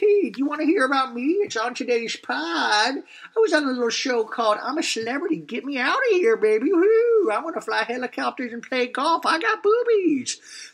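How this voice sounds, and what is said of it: Imitates another person's voice. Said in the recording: “my imitation”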